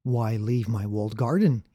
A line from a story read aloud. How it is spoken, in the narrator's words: he says